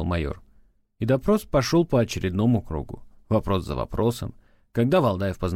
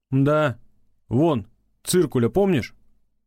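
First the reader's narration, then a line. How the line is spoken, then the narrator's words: Grunting chuckle. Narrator (Russian): хмыкнул майор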